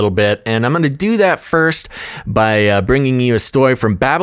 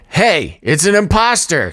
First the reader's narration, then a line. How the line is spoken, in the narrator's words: shouted an arresting officer